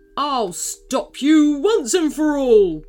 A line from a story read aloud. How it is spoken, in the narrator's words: bellowed Super Ceratops